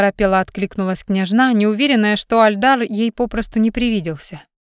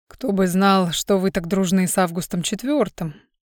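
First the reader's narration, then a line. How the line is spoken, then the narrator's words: Muttering king. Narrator (Russian): пробормотал король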